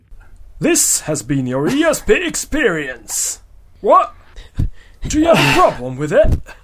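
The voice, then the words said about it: Silly fake nonspecific accent. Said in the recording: “What kind of accent is that again? ... a silly accent. ... Doing some silly fake nothing at all accent.”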